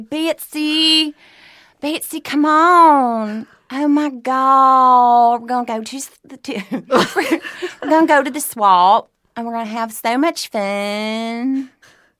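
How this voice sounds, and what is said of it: Put-on accent. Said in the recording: “I love accents. I love doing accents.”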